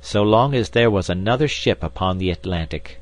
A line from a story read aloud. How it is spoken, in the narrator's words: exclaimed Professor Summerlee heartily